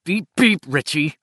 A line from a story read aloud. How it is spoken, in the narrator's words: Ben said through gritted teeth